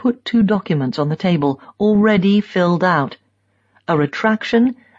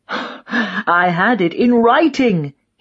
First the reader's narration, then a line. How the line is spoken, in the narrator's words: he shouts